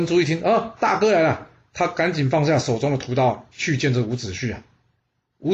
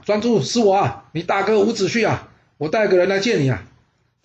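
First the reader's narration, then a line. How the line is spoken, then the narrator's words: Shouting from afar. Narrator (Chinese): 伍子胥远远的大叫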